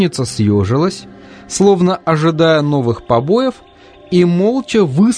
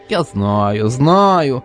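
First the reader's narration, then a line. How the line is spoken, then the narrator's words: Toothless old witch mumbling. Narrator (Russian): прошамкала ведьма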